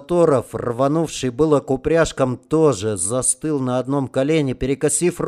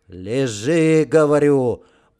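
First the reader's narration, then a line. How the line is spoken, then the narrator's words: Growled. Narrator (Russian): прорычал Романов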